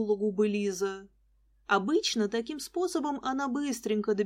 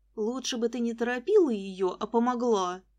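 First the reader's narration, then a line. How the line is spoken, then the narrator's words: Grumbling. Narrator (Russian): проворчала я Лиске вслед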